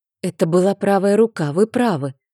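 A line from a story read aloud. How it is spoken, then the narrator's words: Quiet exhale. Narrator (Russian): выдохнула я тихо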